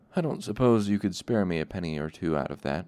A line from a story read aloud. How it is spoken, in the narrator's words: chronicler asked